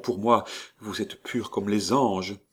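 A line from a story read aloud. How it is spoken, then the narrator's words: Murmuring. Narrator (French): murmura Léon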